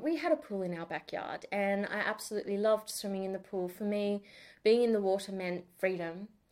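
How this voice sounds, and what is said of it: Australian accent. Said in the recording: “I'm speaking with an Australian accent... I don't sound like I'm from Neighbours or Home and Away. Not quite.”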